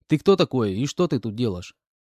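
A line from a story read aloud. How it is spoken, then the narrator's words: Calm question. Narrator (Russian): спокойно спросил я у него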